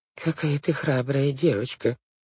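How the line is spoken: Aunt mumbling. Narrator (Russian): пробормотала тетя Жозефина

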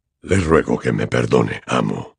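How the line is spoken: Man's hoarse reply. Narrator (Spanish): respondía con voz ronca el hombre

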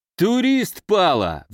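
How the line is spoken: Roared. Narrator (Russian): взревел Венька Фомин

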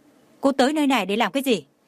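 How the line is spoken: Sudden anger. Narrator (Vietnamese): Trần Mạn Hồng bỗng tức giận nói

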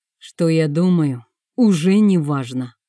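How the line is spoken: Grumbling uncle. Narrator (Russian): проворчал дядя

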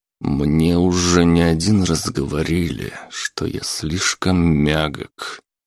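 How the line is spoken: Through clenched teeth. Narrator (Russian): сквозь зубы проговорил он

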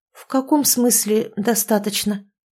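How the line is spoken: Hesitant question. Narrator (Russian): неуверенно переспросила

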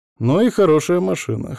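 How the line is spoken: Wry grunt. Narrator (Russian): хмыкнул Алексей

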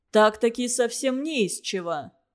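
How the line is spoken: Angry question. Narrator (Russian): сердито спросил Цвилинг

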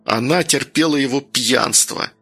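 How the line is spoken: Hurt words through teeth. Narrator (Russian): процедил Данил, чувствуя, как от обиды пульс разогнался и в висках застучало

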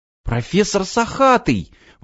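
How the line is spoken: Exclaiming. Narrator (Russian): воскликнул Иван

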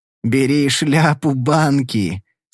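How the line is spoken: Hoarse laughing. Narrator (Russian): с хриплым смехом произнес Уилл

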